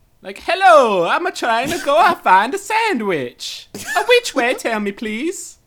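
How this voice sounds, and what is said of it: Exaggerated put-on Italian accent. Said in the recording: “Why is the Italian Borat? ... You guys could do a better Italian.”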